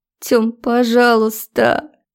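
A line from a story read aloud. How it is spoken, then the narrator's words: Sobbing. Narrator (Russian): Она рыдала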